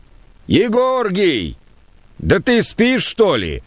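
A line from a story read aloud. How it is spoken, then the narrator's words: Shouted from below. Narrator (Russian): крикнул внизу Пантелей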